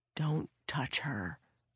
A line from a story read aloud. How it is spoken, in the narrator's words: Frank whispered